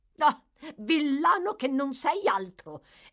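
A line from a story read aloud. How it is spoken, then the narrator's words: Vehement exclamation by a lady. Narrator (Italian): esclamò con veemenza la signora Sowerberry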